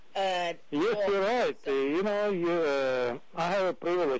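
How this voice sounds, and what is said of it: Speaks with a foreign accent. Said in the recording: “I have an accent. You don't.”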